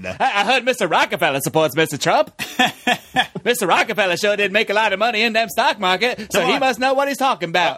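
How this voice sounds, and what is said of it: Old-timey 1920s newsman voice. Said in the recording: “like, a 1920s newsman ... this impression”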